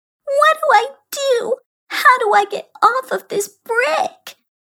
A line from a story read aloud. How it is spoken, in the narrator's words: she asked in a whiny voice